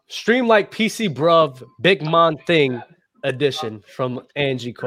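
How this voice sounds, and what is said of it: Bad put-on Jamaican accent. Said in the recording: “That was a bad accent. ... That was bad. ... Are you Jamaican?”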